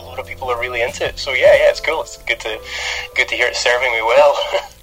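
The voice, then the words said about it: Scottish accent. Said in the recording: “I really love your accent ... growing up as a kid in Scotland, I thought I had one of the worst accents”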